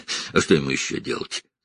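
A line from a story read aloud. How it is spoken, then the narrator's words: Snort. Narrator (Russian): хмыкнул Джейкоб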